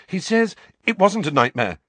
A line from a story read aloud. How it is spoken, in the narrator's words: said Harry quickly